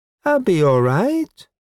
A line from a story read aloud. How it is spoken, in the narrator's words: she said happily